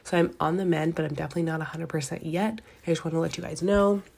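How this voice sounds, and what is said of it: Congested, stuffy voice. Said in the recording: “you can still hear the congestion in my voice.”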